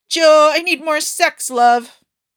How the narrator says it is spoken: Jita shouting

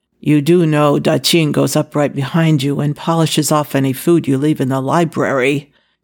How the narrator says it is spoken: announced flatly

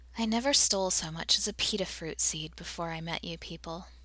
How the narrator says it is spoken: Tayla sighed

